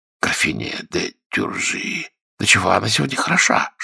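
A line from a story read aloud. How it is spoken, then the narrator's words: Courtiers whispering. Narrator (Russian): шептали придворные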